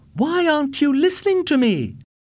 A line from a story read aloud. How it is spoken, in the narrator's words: shouted